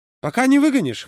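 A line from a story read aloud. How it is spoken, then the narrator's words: Snort. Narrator (Russian): хмыкнул Юра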